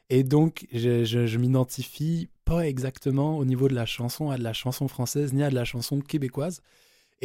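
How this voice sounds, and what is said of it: Franco-Québécois French accent. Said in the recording (French): “mon accent québécois, franco-québécois, tu sais, un peu entre les deux”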